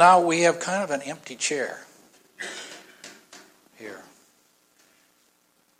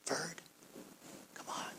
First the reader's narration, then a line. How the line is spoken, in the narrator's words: He just quietly said to Ferd